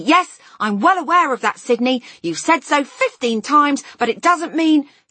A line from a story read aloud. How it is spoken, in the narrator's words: he yelled suddenly